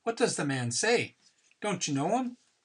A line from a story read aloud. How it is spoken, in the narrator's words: in a masterpiece of Irish brogue said